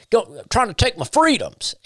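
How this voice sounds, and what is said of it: Mocking put-on Southern accent. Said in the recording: “They always do it with a Southern accent.”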